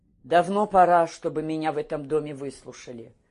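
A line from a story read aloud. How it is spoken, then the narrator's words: Muffled, even voice. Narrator (Russian): начал глуховато, ровным голосом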